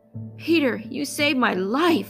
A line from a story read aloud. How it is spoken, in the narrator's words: exclaimed